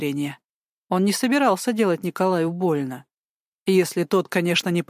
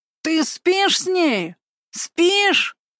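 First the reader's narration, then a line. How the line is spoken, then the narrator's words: Angry yelling. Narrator (Russian): Орал Николай … гневаясь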